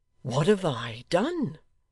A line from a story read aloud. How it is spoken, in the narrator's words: cried Joe